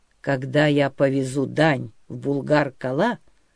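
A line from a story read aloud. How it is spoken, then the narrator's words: Calm, patient repetition. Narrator (Russian): спокойно и терпеливо повторил князь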